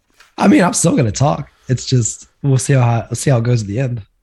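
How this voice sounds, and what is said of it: Hoarse, partly lost voice. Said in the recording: “Gonna try to not lose my voice anymore than I already have”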